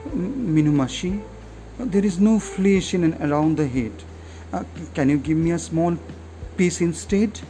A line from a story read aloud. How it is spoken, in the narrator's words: She then said feebly